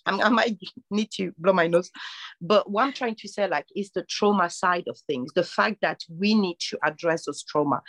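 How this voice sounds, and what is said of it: Deep congested voice from a cold. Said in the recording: “I'm having a really bad cold, so if my voice is a bit deep”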